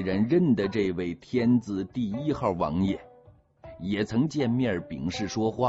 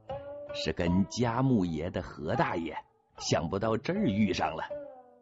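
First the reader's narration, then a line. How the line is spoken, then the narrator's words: Smiling. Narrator (Chinese): 王宝笑着说了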